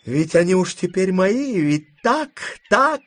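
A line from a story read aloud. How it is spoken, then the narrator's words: Asked spitefully. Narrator (Russian): злобно спрашивала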